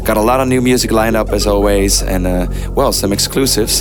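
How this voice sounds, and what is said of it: Hoarse, nearly lost voice. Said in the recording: “You can probably hear my voice is almost gone”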